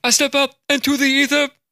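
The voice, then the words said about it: Impression of a friend's voice. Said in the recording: “my best Zach Schwartz impersonation... That was pretty good.”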